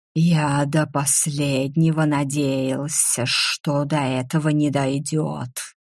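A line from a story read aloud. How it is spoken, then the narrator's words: Angry hiss. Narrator (Russian): зло прошипел дракон, чуть ли не впервые на моей памяти заговорив вслух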